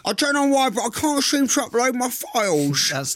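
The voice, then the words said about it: Imitates another person's voice. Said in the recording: “You do a good Alfie Days impression.”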